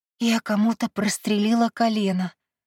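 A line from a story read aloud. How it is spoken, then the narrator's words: Frightened confession. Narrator (Russian): испуганно призналась я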